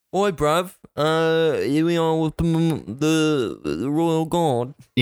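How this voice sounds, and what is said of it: Poor put-on British accent. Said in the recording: “Who can do a British accent? ... that's as good as we're going to get”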